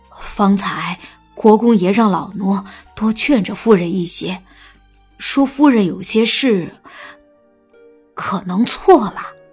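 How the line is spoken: Low, tactful voice. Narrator (Chinese): 又怕新国公夫人听不懂，又压低声音含蓄的道

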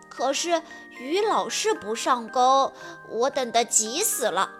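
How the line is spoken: Quiet complaint. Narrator (Chinese): 弗洛格小声地抱怨说

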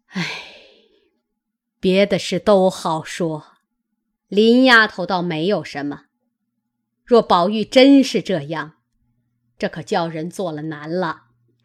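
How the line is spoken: Sighing old woman. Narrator (Chinese): 贾母叹道

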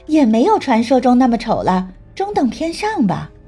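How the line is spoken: Laughing. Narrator (Chinese): 段晨曦忍不住笑道

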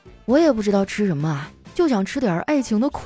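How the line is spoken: Sighing. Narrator (Chinese): 我叹了一口气啊，说

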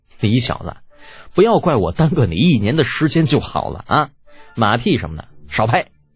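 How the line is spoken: Laughing. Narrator (Chinese): 李浩笑着

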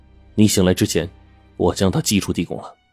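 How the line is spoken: Flat, indifferent. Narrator (Chinese): 冰窟窿淡淡的说

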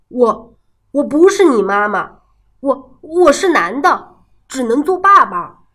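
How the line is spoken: Frightened stammering. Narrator (Chinese): 狐狸吓呆了，结结巴巴地说

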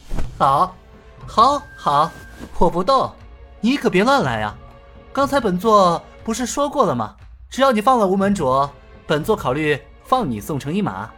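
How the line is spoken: Chuckling. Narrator (Chinese): 尹建平呵呵笑道

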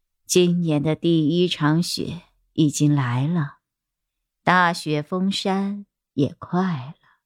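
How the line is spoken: Sighing. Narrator (Chinese): 林君看了看阴云密布的天空，叹道

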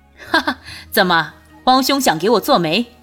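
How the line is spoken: Laughing. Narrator (Chinese): 君玉也笑了

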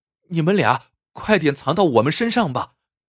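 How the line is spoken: Urgent shout. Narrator (Chinese): 就在这危急时刻，翠花对小五哥俩大喊一声

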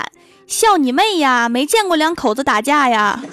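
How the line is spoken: Shouting through megaphone. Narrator (Chinese): 对面阳台有人拿着小喇叭大喊

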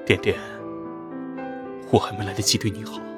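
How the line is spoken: Soft, over the phone. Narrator (Chinese): 方晨宇在电话那边……轻声说

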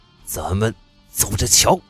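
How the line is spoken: Low resentful threat. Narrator (Chinese): 宋少泽恨恨的低声威胁

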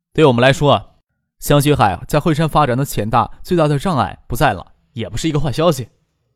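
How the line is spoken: Faint, calm smile. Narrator (Chinese): 张可淡淡的笑着说

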